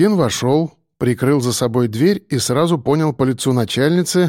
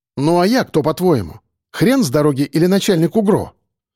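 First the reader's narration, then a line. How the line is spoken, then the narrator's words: Sharp retort. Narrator (Russian): резко парировала она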